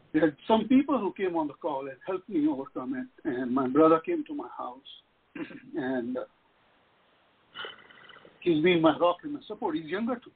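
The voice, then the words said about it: Crying, emotional voice. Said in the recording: “I'm sorry, I'm crying. I'm getting emotional.”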